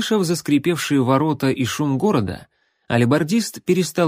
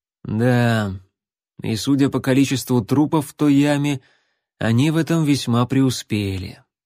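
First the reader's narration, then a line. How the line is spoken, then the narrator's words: Gloomy tracker. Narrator (Russian): мрачно заметил следопыт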